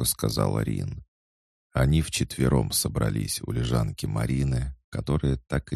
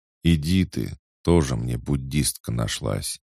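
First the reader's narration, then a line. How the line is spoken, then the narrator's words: Gloomy cursing. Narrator (Russian): мрачно выругалась Тина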